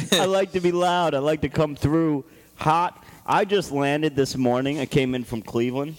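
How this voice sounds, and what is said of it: Usual voice. Nothing is said of it.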